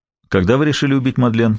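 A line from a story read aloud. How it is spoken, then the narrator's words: Plain. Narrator (Russian): спросил Гамаш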